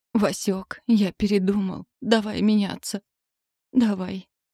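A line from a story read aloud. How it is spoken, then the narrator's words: Hoarse rasp. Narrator (Russian): Муж прохрипел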